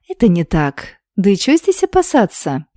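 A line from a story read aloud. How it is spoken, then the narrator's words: Doubtful, slightly confused question. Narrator (Russian): недоверчиво … немного растерянно спросила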